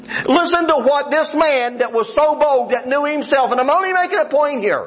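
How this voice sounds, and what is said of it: West Virginia accent. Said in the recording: “it's hard for me to go anywhere and them not know my accent. Hey, this guy's from West Virginia ... You talk like them”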